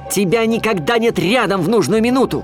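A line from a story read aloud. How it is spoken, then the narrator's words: Shout. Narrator (Russian): крикнул я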